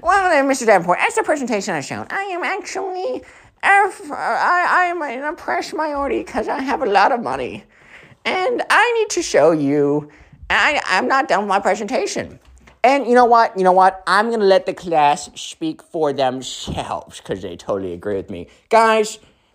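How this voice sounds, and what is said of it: Mocking spoiled-kid character voice. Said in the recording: “do this voice”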